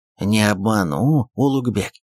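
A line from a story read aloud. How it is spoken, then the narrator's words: Hissed through teeth. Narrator (Russian): сквозь зубы прошипел вагул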